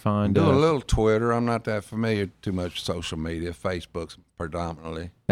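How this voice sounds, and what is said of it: Strong Southern US drawl. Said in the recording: “talk all Southern... put some draw on them... You got enough of that already... You sound just like them”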